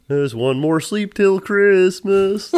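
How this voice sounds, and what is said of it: Singing in a Kermit the Frog voice. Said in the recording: “Good impression. ... Kermit the Frog, I think my voice sits right in a nice Kermit level.”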